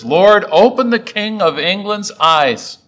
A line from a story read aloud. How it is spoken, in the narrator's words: he cried out his last words